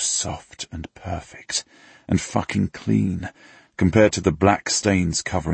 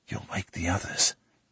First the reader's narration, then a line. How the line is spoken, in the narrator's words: I whisper against her